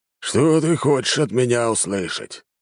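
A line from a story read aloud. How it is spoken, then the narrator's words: Irritable grumbling. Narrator (Russian): раздражительно проворчал командующий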